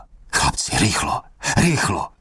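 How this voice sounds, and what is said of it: Whispering, toothless old man voice. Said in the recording (Czech): “Šeptal bezzubými ústy”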